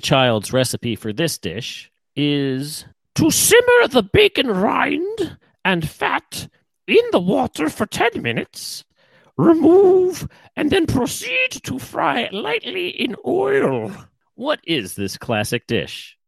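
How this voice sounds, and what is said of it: Attempted Julia Child, sounds like Dame Edna. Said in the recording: “the Julia Child accent ... that's not even ... that was Dame Edna ... it's not Julia Child”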